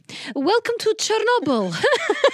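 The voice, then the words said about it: Poor imitation of a foreign accent. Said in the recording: “I'm about to do Alina's accent and that's going to be dog shit ... That's Borat”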